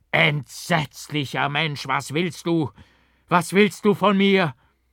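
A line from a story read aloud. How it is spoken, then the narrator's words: Screamed. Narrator (German): Ich schrie auf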